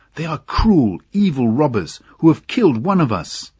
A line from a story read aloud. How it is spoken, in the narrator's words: they cried